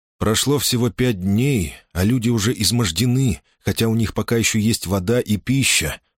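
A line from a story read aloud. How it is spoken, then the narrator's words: Plain. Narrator (Russian): сказал он Диану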